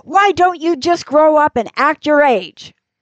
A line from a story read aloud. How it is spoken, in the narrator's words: you'll explode and shout to all the kids